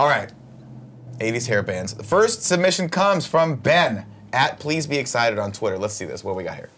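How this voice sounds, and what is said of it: Usual voice. Nothing is said of it.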